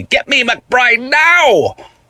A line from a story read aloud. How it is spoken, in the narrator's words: person on the phone shouted